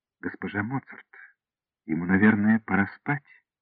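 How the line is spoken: Softer. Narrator (Russian): более мягко сказала

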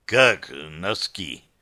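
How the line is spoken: Hoarse confused voice. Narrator (Russian): Хриплый голос был растерян

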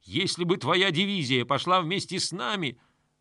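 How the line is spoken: Yelling, choking with hatred. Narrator (Russian): Князь Баргот заорал, задыхаясь от ненависти

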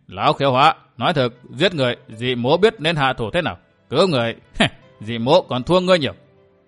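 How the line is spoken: Laughing loudly. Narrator (Vietnamese): Ta Kiếm cười lớn

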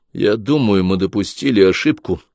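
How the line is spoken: Plain. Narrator (Russian): ответил Клай

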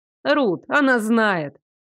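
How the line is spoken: Snorting. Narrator (Russian): фыркнула Хашет

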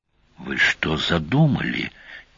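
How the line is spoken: Quiet, cautious. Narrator (Russian): тихо, будто паук мог их услышать

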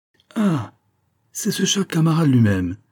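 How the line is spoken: Frank joyful exclamation. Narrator (French): s'écria d'une voix franche et joyeuse

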